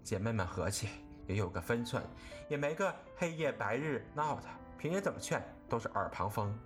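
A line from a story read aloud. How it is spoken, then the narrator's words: Sighing. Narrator (Chinese): 袭人又叹道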